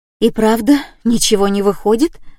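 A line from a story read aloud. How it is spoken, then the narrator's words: Breathed out. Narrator (Russian): выдохнула она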